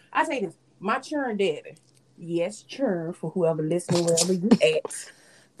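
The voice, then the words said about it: Florida accent. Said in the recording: “The Florida accent is coming out.”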